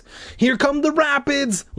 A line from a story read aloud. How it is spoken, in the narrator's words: Larry shouted, cupping his hands around his mouth so we could hear him